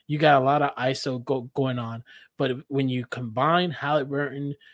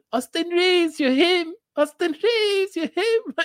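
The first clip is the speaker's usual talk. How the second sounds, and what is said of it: Imitates another person's voice. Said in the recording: “to do an imitation”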